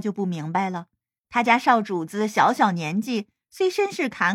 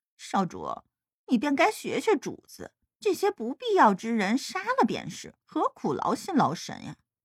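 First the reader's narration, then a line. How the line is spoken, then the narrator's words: Muttering. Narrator (Chinese): 莫名却是嘟囔道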